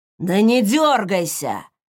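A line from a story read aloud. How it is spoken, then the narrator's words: Growl. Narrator (Russian): рыкнул мужчина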